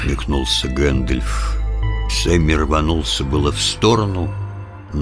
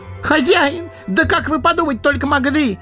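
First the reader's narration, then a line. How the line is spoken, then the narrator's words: Wailing cry. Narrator (Russian): завопил садовник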